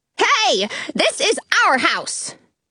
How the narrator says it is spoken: the white rabbit shouts from the front lawn

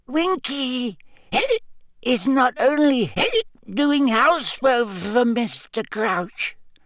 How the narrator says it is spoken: Winky squeaked indignantly

